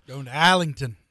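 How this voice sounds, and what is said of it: Put-on Australian accent. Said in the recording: “Pretty good Australian accent there. Better than I could do”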